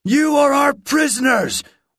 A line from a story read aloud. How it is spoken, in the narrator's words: one man shouted